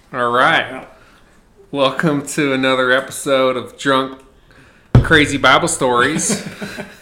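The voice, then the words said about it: Put-on accent. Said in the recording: “I'm talking in the accent”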